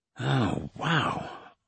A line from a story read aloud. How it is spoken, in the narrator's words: I muttered